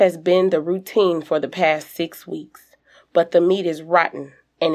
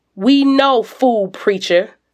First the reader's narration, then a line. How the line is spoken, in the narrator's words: someone shouts